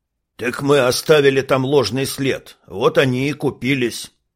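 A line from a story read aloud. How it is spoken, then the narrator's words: Big man grumbling. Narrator (Russian): проворчал здоровяк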